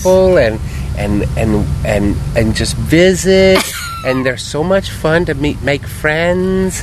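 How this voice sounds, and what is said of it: Dead-on impersonation of a friend. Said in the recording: “That's a dead-on impersonation there”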